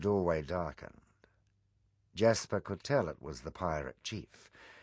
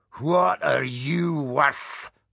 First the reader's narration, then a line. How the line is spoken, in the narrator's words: roared the pirate chief